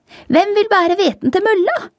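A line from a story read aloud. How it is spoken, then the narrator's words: Little hen calling. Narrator (Norwegian): ropte den lille røde høna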